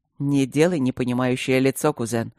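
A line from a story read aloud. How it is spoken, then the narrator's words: Smirking hum. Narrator (Russian): хмыкнул блакориец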